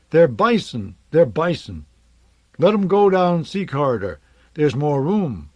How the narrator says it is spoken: a woman shouted

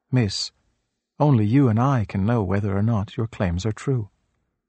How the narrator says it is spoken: The Buddha only smiled calmly and replied

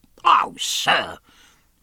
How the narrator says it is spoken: cried Killick

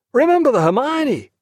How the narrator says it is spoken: cried Lewis

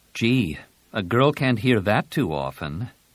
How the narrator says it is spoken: Jaina said dryly

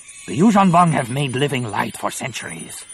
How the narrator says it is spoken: Nomanor snapped

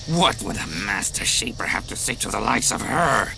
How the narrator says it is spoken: Quad sneered

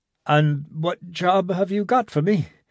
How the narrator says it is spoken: Gibson asked a little anxiously

